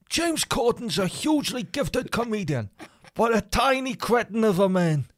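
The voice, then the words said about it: Put-on New York accent. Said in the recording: “You're doing it in New Yorkian accent.”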